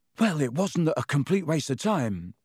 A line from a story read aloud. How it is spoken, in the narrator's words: Ron panted